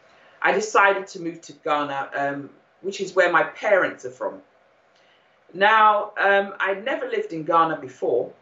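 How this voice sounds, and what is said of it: British accent. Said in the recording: “I'm sure you can tell from my accent that I'm actually born in the UK, brought up in the UK”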